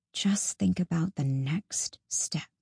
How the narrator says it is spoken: murmuring under her breath

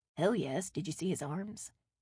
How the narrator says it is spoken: Sam whispered

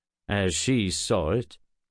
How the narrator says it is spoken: said Geralt dryly

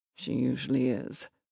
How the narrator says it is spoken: Papa grumbled

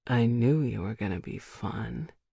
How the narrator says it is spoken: he mutters

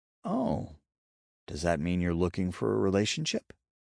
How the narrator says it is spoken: Ember asked, her tone and expression curious

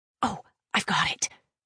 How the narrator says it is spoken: Kara whispered

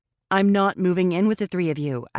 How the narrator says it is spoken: I said, my voice firm

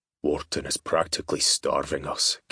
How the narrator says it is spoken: Keenan said, his voice low

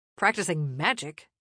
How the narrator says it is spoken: Donovan snapped back

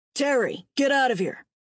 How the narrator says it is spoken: Gavin barked

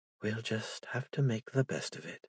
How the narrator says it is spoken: whispered to her sleeping child

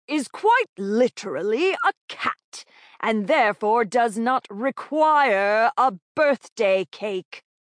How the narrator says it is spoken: spat the man

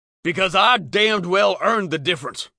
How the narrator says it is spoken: Walt said angrily

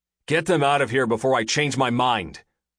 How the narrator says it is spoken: snapped

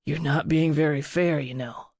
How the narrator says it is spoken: he growled against her breast

